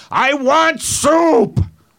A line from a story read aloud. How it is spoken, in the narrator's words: He just kept yelling out